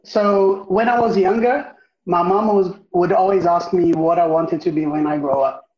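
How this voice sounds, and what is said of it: Foreign accent. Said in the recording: “He has an accent”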